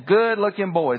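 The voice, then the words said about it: Thick Alabama accent. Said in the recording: “with that thick Alabama accent”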